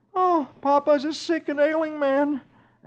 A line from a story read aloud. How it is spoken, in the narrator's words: Dagwood moans